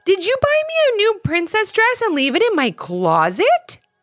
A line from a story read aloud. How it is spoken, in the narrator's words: Ivy exclaimed